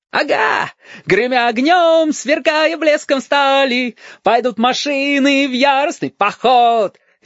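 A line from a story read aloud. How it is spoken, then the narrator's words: Jubilant yelling. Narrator (Russian): ликующе вопил Стасик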